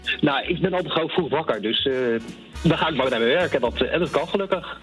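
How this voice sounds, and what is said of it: Light The Hague Dutch accent. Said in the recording (Dutch): “ik hoor toch een licht Haags accent bij jou”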